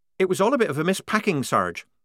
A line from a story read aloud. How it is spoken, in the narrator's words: said Polly quickly, anxious to keep away from anything connected with missing ringlets